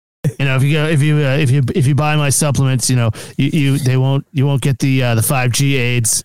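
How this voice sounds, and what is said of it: Imitates another person's voice. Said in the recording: “fucking awesome at doing an Alex Jones impression”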